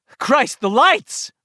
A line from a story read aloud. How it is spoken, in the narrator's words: Richie shouted